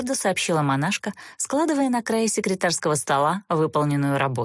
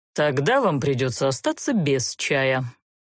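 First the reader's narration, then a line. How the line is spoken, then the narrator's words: Indignant grumble. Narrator (Russian): проворчал возмущенный такой наглостью Занбар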